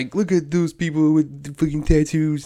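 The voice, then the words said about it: Terrible impression of a boomer. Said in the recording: “the boomers were like ... that terrible impression”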